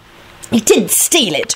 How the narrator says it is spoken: Rosie replied irritably

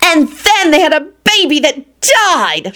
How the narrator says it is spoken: she shrieked triumphantly

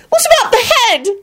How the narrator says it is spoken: Rosie wailed

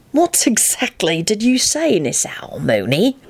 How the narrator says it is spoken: Sirius said very slowly, as if he were talking a deranged man down from a roof

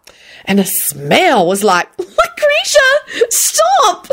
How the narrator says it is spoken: Solange shrieked

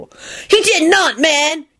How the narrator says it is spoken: Kenny screamed angrily

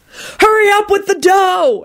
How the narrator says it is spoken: everyone screamed

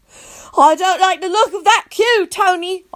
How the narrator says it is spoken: I yelled

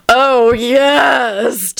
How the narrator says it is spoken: Tony wailed in an orgasmic fashion

